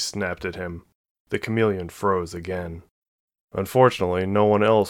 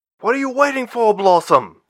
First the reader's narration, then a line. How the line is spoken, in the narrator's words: Carradine snapped at her